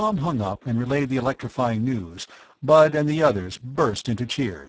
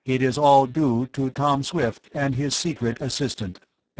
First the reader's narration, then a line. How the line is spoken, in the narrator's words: X-Man said